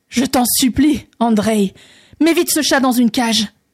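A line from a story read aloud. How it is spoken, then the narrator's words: Terrified exclamation. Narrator (French): s'écria le tsar, rempli d'épouvante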